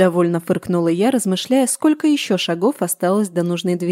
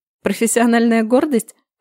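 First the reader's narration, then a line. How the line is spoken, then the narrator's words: Thin girl's snort. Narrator (Russian): хмыкнула худенькая Илька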